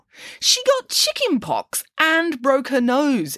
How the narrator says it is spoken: exclaimed Nanny Piggins

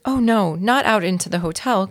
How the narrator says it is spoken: cried Ralph's mother

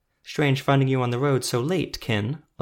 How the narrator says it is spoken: Alu said

